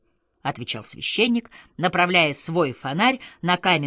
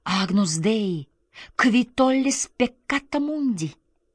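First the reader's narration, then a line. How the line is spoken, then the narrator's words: Frightened quick whisper. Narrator (Russian): испуганная окружающей темнотой и тишиной, она быстро прошептала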